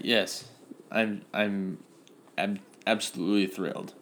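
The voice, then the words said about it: Flat, sarcastic forced enthusiasm. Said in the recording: “You sound so excited... It's forced.”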